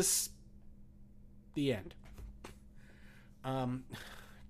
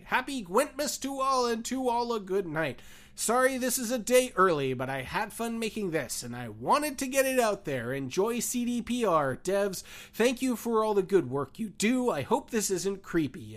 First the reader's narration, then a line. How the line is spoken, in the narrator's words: exclaim